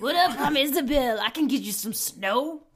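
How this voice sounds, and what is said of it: Character voice of punk rock kid. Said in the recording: “I think that's her voice. I should do her voice.”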